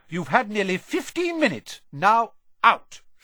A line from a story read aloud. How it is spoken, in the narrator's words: she said firmly